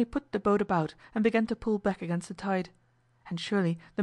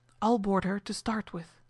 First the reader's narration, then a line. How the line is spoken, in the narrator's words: said Hazel, whispering to Rexel